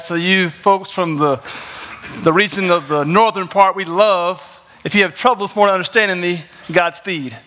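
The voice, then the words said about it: Southern American twang. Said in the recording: “I'm from North Carolina. So if you understand the southern twang”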